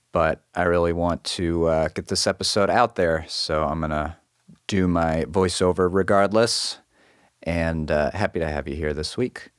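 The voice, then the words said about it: Hoarse, deeper than normal voice. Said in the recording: “I have a bit of a sore throat, so I'm a little more Darth Vader than normal today”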